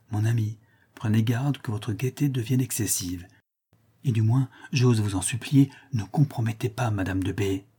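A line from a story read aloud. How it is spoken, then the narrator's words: Quiet voice. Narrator (French): lui dis tout bas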